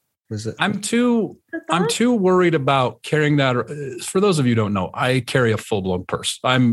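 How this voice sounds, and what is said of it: Usual voice. Nothing is said of it.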